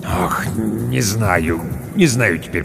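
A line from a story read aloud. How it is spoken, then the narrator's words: Mumbling. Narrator (Russian): пробормотал управдом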